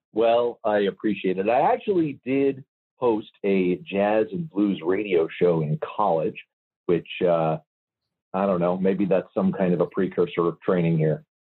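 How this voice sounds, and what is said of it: Calm, smooth radio voice. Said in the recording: “What a calm, calm, wonderful voice you have. You actually have a voice made for radio ... you have a good radio voice”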